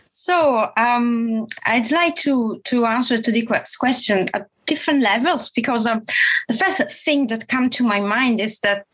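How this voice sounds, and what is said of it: Italian-accented English. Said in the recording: “the accent I have is the Italian accent plus other accent coming from”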